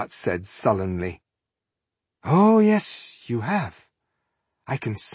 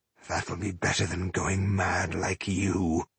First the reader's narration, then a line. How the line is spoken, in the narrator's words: muttered Ireheart